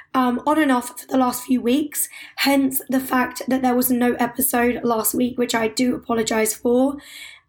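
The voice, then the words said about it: Hoarse, partly lost voice. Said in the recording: “as you may be able to tell from my voice, I have lost my voice”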